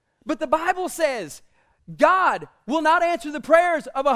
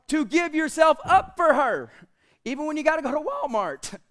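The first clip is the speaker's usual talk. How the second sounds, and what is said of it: Voice cracking mid-sentence. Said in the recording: “You hear how my voice cracked? ... My voice cracks.”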